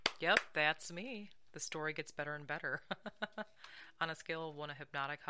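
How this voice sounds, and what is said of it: Usual voice. Nothing is said of it.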